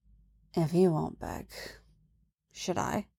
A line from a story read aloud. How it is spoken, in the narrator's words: whispers